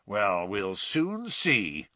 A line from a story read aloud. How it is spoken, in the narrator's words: growled Mr